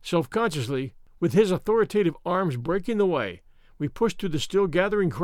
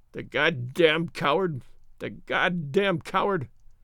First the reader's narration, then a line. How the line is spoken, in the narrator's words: he whimpered